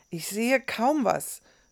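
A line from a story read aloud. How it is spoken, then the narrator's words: Groaning after stumbling. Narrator (German): stöhnte Rahim, der gerade über eine dicke Wurzel am Boden gestolpert war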